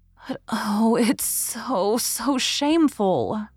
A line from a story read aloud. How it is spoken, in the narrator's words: murmured Leslie